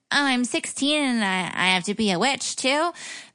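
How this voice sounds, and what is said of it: Whiny impression of Sabrina. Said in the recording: “the Melissa Joan Hart Sabrina, was always whining about Harvey ... That was her voice. It's a really good impression.”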